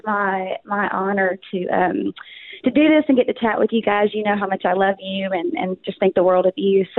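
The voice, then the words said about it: Southern US accent. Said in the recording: “someone from the South ... I'll bring a little bit of accent ... get rid of the accent ... I'm from Arkansas, born and raised, moved to Texas ... double whammy of South”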